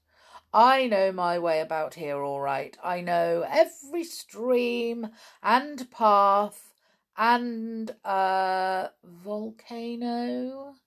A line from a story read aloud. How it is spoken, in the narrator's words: giggled